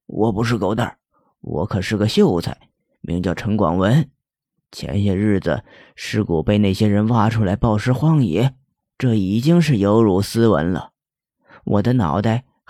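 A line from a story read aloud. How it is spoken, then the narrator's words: Cold. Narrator (Chinese): 狗蛋儿却冷冷的说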